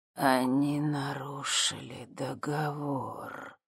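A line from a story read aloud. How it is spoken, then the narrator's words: Hiss close by. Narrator (Russian): прошипел кто-то совсем рядом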